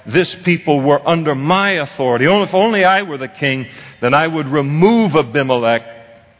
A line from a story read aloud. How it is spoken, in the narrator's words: cried out